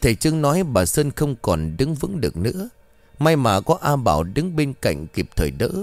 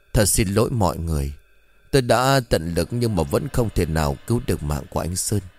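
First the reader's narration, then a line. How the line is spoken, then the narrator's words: Sighing. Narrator (Vietnamese): thầy Trương thở dài nói với bà Sơn, A Bảo cùng ông Soi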